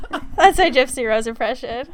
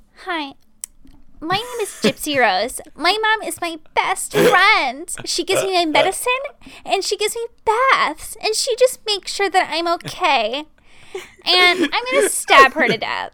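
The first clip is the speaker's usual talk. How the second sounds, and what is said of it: Imitates another person's voice. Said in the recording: “I can do a really good Gypsy Rose impression.”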